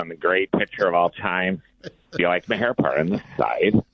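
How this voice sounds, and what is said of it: Imitates another person's voice. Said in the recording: “Cole Hamels”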